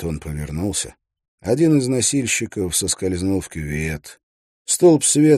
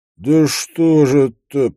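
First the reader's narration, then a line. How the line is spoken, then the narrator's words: Moaning. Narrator (Russian): простонал Шапка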